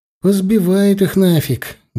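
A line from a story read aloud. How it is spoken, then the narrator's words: Sad. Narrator (Russian): грустно сказал Серега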